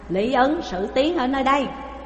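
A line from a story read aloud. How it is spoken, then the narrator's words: Two big men shouting. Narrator (Vietnamese): hai người to lớn quát lên rằng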